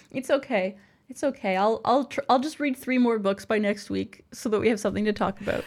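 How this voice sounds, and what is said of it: Slightly stuffy, congested voice. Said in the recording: “I kind of have a little bit of a cold. I don't know if you can hear that in my voice.”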